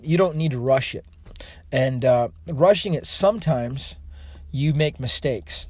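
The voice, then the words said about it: Hoarse, fading voice. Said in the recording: “I'm losing my voice here.”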